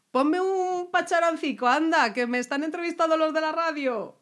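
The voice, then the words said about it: Put-on Navarrese Spanish accent. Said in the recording (Spanish): “Yo no sé hacer acento navarro ... No, no hablan así.”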